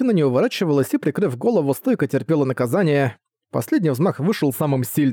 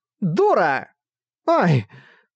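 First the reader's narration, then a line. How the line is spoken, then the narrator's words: Sharp cry. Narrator (Russian): вскрикнула Латина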